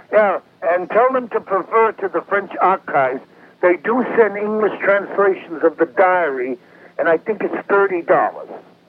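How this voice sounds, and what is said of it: Southern accent, somewhat unclear speech. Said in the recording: “a little hard to follow ... I can understand about every fourth word ... the Southern accent. I don't have my teeth in.”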